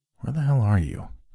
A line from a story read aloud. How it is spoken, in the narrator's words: whispered under my breath